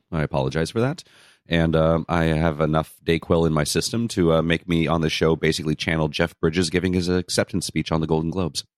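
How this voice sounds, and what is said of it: Low, congested voice from cold. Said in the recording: “I have a cold. Again. ... my voice is probably an octave or two lower than normal”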